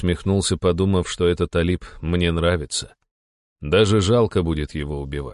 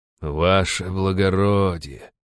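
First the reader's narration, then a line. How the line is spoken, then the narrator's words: Sighing. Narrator (Russian): снова вздохнул Алип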